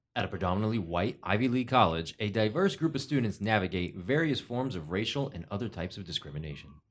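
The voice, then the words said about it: Announcer voice. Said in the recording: “with your announcer voice.”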